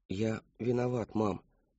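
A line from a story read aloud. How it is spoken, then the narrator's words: Quiet. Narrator (Russian): тихо сказал он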